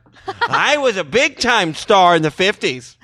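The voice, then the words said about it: Imitates another person's voice. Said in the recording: “Mickey Rooney as Unor ... my Unor impression ... It's good.”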